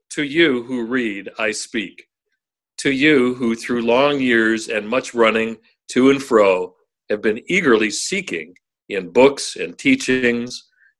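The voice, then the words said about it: Deep, reverberant radio announcer voice. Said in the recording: “Use your radio voice, will you, when you read it? ... You want me to put a little verb on it? ... Sound like God.”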